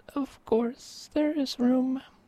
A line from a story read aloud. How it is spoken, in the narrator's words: the mouse was startled at first, but realized there was room for more, and chirped to friendly replies